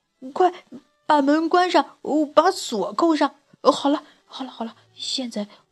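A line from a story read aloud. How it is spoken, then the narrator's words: Panting. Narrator (Chinese): 老大一边喘着气，一边说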